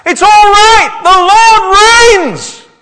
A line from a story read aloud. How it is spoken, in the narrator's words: he shouts